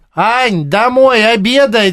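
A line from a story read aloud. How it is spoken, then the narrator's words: Shouted. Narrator (Russian): Тебе кричали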